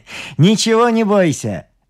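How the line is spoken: Laughing reply, artist. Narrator (Russian): отвечал художник, смеясь

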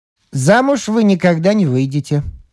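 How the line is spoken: Snide. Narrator (Russian): Он ехидно сказал

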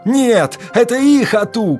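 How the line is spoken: Guards shouting. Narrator (Russian): кричали стражники

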